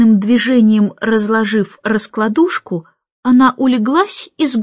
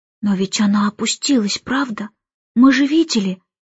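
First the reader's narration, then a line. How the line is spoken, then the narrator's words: Whisper. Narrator (Russian): прошептал он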